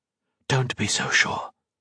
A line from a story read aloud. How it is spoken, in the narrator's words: Colette replied, also in a whisper